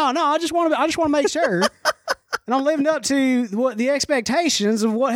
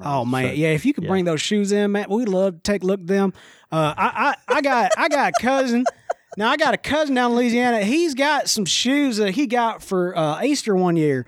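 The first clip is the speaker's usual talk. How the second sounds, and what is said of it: Inconsistent put-on Southern accent. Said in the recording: “I've kind of crossed my Southern accent a couple different ways there in the midst of it. You got to pick one and go with it. I couldn't do it.”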